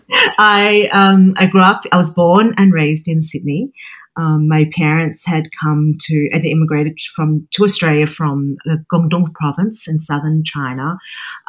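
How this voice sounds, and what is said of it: Australian accent. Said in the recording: “I have an Australian accent”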